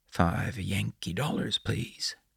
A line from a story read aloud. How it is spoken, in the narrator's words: Bear whispered to Brandi